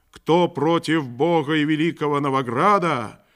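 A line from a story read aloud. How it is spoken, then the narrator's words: Booming exclamation. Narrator (Russian): воскликнув громогласно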